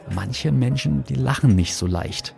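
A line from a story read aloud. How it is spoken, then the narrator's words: Whispered reply. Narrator (German): flüsterte ich zurück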